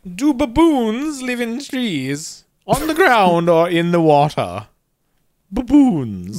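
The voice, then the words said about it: Put-on aloof old explorer accent. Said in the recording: “I'm really loving this accent. ... That you're affecting here. ... old explorer ... You were kind of doing aloof. ... Aloof explorer guy.”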